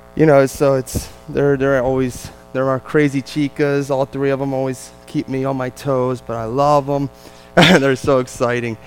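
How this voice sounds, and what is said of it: New Jersey accent. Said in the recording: “I know it might be tough to put up with my Jersey accent, but it is. I can't change it. ... It's both hard to understand at times.”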